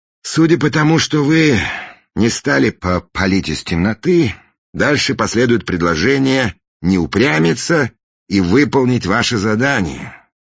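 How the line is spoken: Sigh. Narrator (Russian): вздохнул Фандорин

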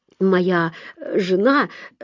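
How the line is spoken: Stammering start. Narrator (Russian): запинаясь, начал он

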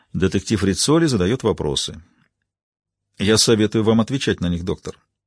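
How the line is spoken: Completely calm. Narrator (Russian): Совершенно спокойно он ответил

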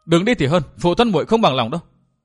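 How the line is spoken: Angry loud young woman. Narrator (Vietnamese): thiếu nữ áo lam tức giận lớn tiếng nói

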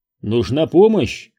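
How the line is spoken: Shout. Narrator (Russian): крикнул я

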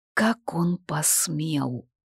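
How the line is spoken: Barely audible hiss. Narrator (Russian): Еле слышно процедил Ридиан

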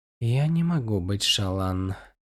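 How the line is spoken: Whisper. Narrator (Russian): прошептала она

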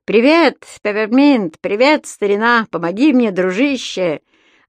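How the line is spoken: Loud and cheerful. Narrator (Russian): Громко и весело проговорил он

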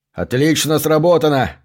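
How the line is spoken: Yelling. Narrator (Russian): заорал Зверь

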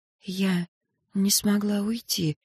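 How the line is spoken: Whispered. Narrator (Russian): прошептала

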